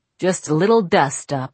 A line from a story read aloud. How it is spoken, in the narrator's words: I said